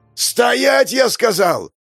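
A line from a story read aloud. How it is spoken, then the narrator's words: Man yelling. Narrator (Russian): заорал мужчина в костюме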